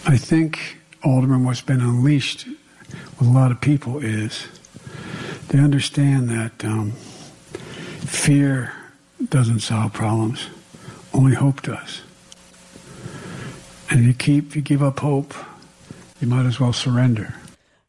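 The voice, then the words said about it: Cheap Barack Obama impersonation. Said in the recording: “a bit of a cheap impersonation of Barack Obama”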